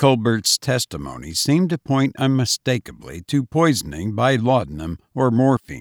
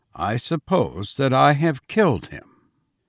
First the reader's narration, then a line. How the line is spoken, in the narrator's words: the prisoner coolly said